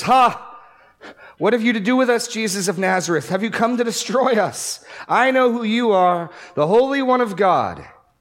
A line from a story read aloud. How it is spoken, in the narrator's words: a man with a spirit who had an unclean demon, and he cried out with a loud voice